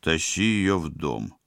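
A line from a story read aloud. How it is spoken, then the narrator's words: Glum permission. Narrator (Russian): уныло разрешил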